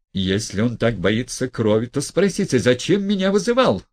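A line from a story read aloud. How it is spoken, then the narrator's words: Yelling. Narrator (Russian): вопил Гаганов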